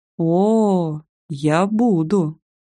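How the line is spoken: Eager, smiling drawl. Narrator (Russian): предвкушающе протянула я, улыбаясь до ушей

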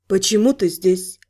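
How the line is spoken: Quiet inquiry. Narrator (Russian): негромко поинтересовалась моя собеседница

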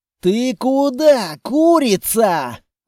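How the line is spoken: Yelling. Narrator (Russian): орал Длинный

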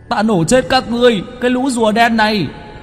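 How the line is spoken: Yelling. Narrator (Vietnamese): Cho cốt trộn cơm gào lên

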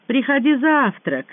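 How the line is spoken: Shouted after someone. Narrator (Russian): крикнул вслед Высокий

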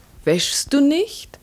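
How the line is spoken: Still calling out. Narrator (German): ihre Stimme rief noch immer

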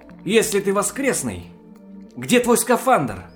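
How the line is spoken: Excited realization exclamation. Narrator (Russian): воскликнул я, осененный новой мыслью

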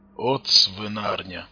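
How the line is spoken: Gruff mutter. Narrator (Russian): буркнул Тарас

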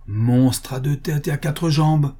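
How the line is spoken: Exclaiming. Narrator (French): s'écria-t-elle

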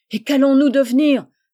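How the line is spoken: Women exclaiming together. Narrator (French): s'écrièrent-elles

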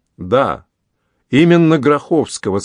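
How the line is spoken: Plain. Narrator (Russian): сказал Сюше

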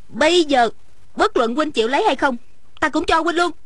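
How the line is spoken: Angry. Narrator (Vietnamese): Ung Thanh giận dữ nói

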